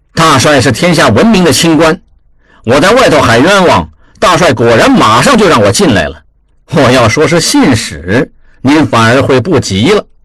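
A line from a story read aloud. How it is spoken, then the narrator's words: Sneering. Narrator (Chinese): 望柏冷笑道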